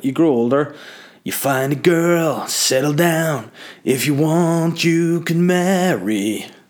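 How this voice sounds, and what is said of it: Sings in a put-on voice. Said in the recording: “I don't know why I sang in that voice. ... I don't know what that voice was.”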